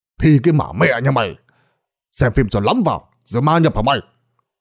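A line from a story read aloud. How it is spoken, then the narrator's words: Angry old man shouting. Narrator (Vietnamese): Lão Tuất quát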